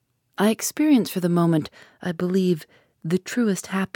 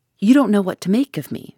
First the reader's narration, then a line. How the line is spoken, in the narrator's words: she cried